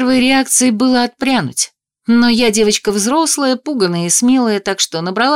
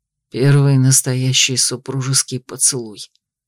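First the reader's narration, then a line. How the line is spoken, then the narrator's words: Hoarse reply. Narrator (Russian): хрипло ответил он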